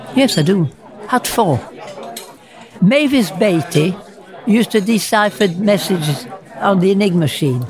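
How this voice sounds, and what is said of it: Speaks with a noticeable accent. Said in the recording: “I still had the accent, of course. ... You've got a beautiful accent.”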